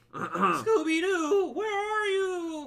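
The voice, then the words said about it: Cartoon Shaggy character voice. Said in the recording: “doing a Shaggy voice ... That's pretty good.”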